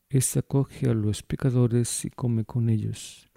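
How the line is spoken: Grumbling group murmur. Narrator (Spanish): los fariseos y escribas murmuraban diciendo

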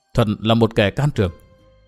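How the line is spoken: Heavy sigh, muttering. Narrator (Vietnamese): Từ Mã Minh thở dài não ruột rồi lẩm bẩm nói

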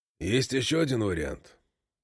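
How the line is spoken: Quiet. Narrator (Russian): тихо говорит Гис

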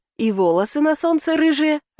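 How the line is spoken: Joyful remark. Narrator (Russian): радостно заметил он

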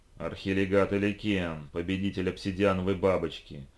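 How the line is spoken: Terrifying enraged growl. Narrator (Russian): Совершенно жутким голосом рычала разгневанная Лиша

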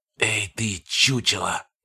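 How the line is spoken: Hiss. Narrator (Russian): прошипел

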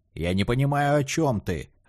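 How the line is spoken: Barked. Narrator (Russian): рявкнул Портелло

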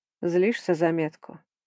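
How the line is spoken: Plain. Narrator (Russian): спросил инкуб

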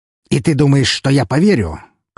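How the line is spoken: Contemptuous scoff. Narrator (Russian): презрительно хмыкнул Филинов

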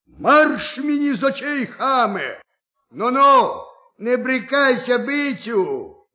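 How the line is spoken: Sudden shout. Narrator (Ukrainian): як крикне

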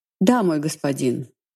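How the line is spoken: Pointedly calm. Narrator (Russian): подчеркнуто спокойно произнесла

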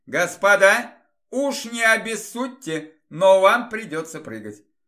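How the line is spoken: Shout. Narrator (Russian): Оборон крикнул

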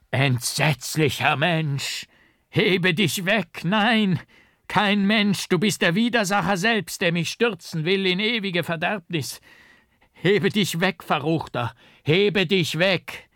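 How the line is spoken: Frantic desperate scream. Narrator (German): schrie ich in wahnsinniger Verzweiflung

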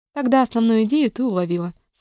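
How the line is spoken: Dry, with a smile. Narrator (Russian): сухо улыбнулась Вивиан

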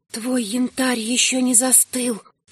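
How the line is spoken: Whisper. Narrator (Russian): шепнули бесцветные губы

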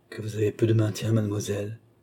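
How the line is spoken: Murmured. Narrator (French): murmura Madame l'étiquette

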